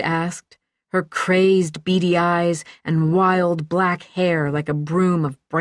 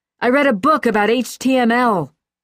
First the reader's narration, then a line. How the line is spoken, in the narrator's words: Carl once roared